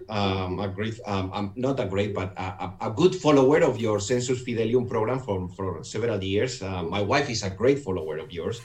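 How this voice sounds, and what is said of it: Noticeable foreign accent in English. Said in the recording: “Despite my accent, I want to let your audience know you're going to have to really pay attention.”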